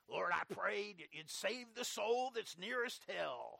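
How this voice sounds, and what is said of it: Impression of evangelist Oliver Green. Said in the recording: “That's my Oliver Green impersonation... his voice sounds black”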